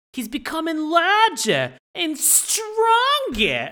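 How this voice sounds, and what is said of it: Exaggerated bad Boston accent. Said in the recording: “the worst Boston accent I've ever heard ... Sounded like Marissa Tomei from My Cousin Vinny.”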